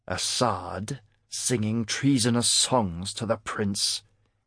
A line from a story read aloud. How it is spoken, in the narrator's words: hissed angrily, keeping his voice low